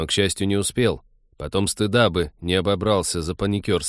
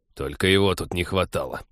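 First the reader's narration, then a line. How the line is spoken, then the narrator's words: Grumbled. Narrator (Russian): проворчал Тед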